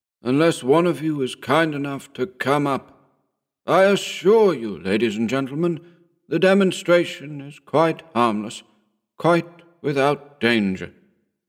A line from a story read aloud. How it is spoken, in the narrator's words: he said in a weary voice